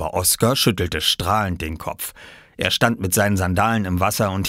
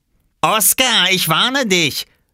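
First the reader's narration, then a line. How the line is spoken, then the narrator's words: Warning shout. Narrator (German): rief Robert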